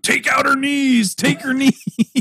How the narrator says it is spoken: Riggins ... is screaming out

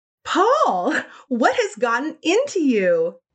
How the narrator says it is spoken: Elena laughed like a schoolgirl

